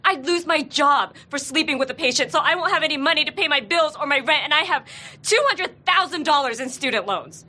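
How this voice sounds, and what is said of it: Very fast, upset speech. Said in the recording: “You're talking really fast. ... Because I'm upset.”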